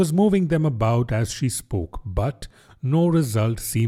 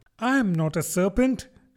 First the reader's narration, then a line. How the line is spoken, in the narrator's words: said Alice indignantly